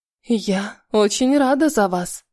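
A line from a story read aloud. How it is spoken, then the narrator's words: Hoarse, pained. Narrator (Russian): прохрипела с болью в голосе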